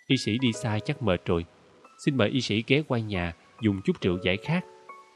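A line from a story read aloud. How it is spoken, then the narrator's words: Sulky but gentle. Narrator (Vietnamese): Merit dường như hờn giận nhưng vẫn nhẹ nhàng nói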